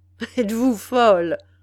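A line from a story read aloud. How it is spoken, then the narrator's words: Laughing interruption. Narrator (French): interrompit le montagnard en riant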